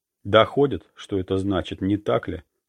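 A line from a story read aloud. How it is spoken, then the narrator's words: Calm. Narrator (Russian): спокойно сказал он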